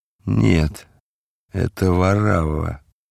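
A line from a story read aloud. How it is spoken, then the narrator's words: Muffled, hollow reply. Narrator (Russian): глухо ответил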